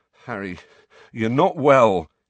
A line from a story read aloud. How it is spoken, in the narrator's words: he said shakily